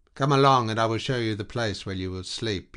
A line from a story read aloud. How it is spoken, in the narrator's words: he said with a sigh